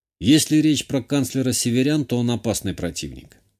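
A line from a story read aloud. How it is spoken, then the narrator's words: Calm reply. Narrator (Russian): спокойно ответил я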